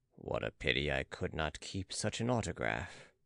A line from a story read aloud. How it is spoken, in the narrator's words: sighed the magician